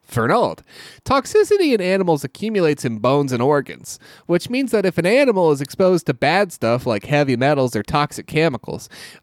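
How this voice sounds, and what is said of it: Reads aloud in a put-on accent. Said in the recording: “I don't know why I'm switching to that accent”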